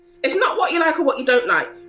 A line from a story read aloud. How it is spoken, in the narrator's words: Grandma snapped